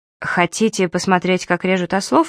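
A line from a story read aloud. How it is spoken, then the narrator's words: Plain. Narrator (Russian): спросил Ли Доу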